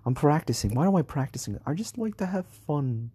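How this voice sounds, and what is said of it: Fake British accent, sounds Australian. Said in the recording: “speaking out loud in my British fake accent ... I don't even know if this is a good accent ... it sounds more Australian than British”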